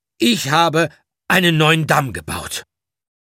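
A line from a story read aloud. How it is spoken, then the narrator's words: Loud and clear. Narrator (German): sagte laut und deutlich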